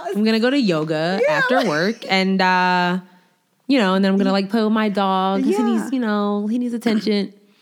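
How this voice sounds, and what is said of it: Put-on stereotypical 'white-sounding' voice. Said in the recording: “my mom has a talking white voice ... every black person you know, for the most part, has a talking white voice ... I have stopped talking in my white voice at work”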